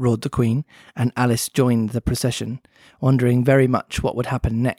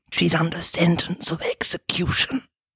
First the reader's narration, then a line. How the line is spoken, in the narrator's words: anxiously, put his mouth close to her ear, and whispered